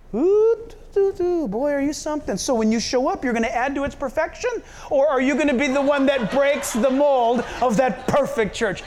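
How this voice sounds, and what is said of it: Heavy, thickly laid-on sarcasm. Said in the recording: “I'm being sarcastic. Can you tell? I'm laid it on pretty thick.”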